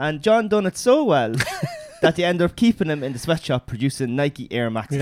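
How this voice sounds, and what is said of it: Usual voice. Nothing is said of it.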